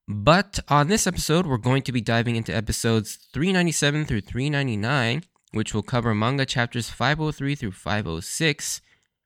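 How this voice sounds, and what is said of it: Unwell, allergy-affected voice. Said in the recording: “Sorry about my voice today. I've been dealing with some serious allergies, um, so I've been sneezing and coughing a lot.”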